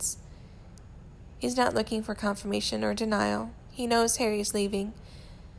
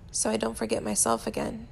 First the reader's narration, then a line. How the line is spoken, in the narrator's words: he mumbles, mostly to himself, fingers shaky